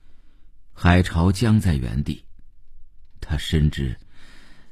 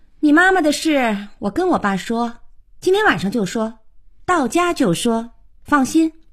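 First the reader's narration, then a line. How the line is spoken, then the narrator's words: Said while walking away. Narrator (Chinese): 小可头也不回地说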